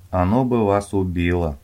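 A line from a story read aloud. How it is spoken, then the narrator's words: Sighing. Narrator (Russian): вздохнул художник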